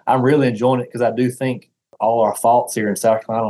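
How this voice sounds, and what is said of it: Deep Southern American accent. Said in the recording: “as you can hear from my accent ... have a slight speech impediment, have this terrible deep Southern accent”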